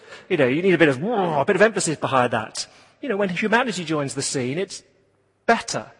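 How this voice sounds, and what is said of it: Usual voice. Nothing is said of it.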